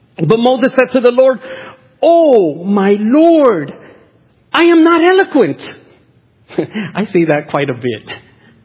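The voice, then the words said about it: Strong, heavy accent while preaching. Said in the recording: “I have a strong accent when I teach or preach ... the heavy accent”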